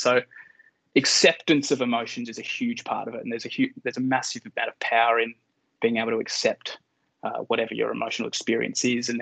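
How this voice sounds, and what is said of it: Australian accent. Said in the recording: “you've got a background in rugby union in Australia, if anybody's not wondering where they've clocked the accent from”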